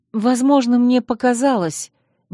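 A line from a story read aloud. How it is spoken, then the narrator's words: Uncertain. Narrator (Russian): неуверенно сказала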